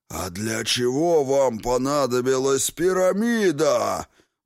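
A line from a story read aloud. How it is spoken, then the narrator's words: Growled through a woman. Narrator (Russian): прорычал Великий Темный устами госпожи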